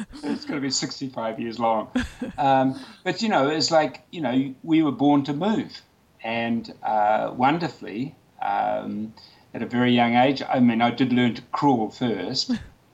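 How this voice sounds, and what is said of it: New Zealand accent. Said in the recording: “your fabulous Kiwi accent”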